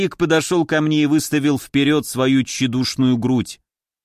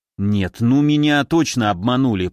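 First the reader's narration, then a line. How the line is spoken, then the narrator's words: Grumbling. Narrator (Russian): проворчал я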